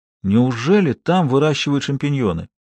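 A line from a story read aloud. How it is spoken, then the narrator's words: Surprised mutter. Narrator (Russian): удивленно пробормотал он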